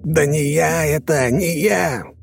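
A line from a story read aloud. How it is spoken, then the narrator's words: Shouting. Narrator (Russian): кричал Юнусов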